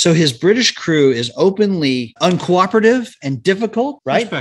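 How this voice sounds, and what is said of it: Usual voice. Nothing is said of it.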